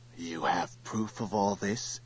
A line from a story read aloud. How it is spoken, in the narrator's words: whispered Turl